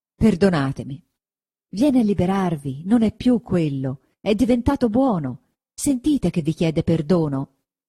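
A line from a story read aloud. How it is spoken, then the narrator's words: Exclaimed. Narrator (Italian): esclamò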